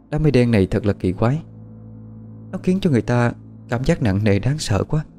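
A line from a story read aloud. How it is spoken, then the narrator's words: Soft sighing lament. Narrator (Vietnamese): Bích Nguyệt khẽ than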